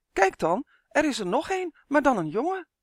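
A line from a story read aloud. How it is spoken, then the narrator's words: Calling out. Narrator (Dutch): riep ze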